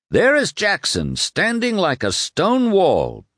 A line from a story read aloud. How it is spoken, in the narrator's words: B shouted